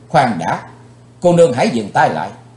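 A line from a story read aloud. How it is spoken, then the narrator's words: Young man shouting. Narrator (Vietnamese): Chàng quát lên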